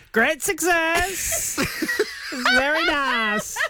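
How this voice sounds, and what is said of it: Imitates Borat character voice. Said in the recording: “does a great Borat. Go, give us your Borat”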